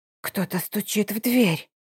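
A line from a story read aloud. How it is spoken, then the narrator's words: Funereal whisper. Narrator (Russian): похоронным шепотом сообщает Варуль, вбегая в комнатку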